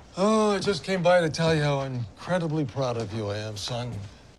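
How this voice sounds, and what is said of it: Sarcastic mock-praise delivery. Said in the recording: “I think you're being sarcastic ... 然后爸爸真的就是在挖苦的”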